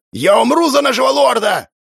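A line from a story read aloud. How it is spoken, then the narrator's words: Yelled. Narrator (Russian): Заорал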